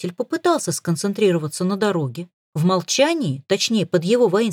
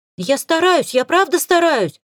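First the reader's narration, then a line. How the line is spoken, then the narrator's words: Tearful exclamation. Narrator (Russian): со слезами в голосе воскликнул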